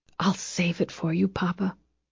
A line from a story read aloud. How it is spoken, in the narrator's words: whispered